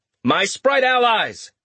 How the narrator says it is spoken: Richter said, raising his voice

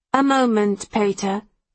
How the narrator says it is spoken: Marcus purrs

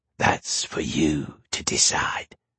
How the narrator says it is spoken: it hissed

